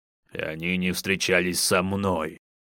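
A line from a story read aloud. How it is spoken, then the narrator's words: Boastful roar. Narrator (Russian): Хвастливо прорычал Инар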